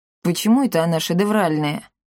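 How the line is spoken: Scoffing snort. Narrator (Russian): хмыкнул Капотун

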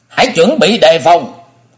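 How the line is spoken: Loud shouting. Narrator (Vietnamese): Phụng Hoàng Ma Cơ miệng thét lớn

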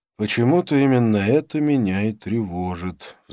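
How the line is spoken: Sighing. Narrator (Russian): вздохнул

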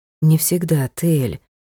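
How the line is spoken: Soft butler's voice. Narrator (Russian): мягко произнес дворецкий

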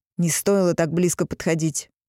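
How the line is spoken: Irritated curt remark. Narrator (Russian): раздраженно бросил

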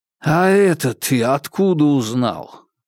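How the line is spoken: Investigator sighing. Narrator (Russian): вздохнул следователь

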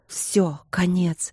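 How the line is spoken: Fearful whisper. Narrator (Russian): Страх шептал

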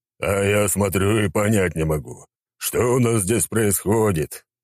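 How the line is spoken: Booming bass. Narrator (Russian): грохотал он своим басом

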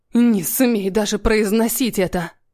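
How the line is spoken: Angry hiss. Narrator (Russian): прошипело зло

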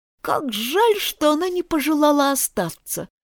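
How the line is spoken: Sighed. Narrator (Russian): вздохнул попугайчик Лори

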